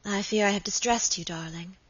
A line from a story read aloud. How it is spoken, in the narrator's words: murmured Lady Audley